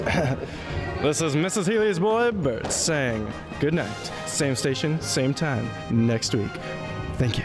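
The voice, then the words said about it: 1930s radio announcer voice. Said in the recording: “your best 1930s radio voice”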